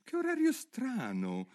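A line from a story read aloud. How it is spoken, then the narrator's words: Exclaimed. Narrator (Italian): esclamò Alice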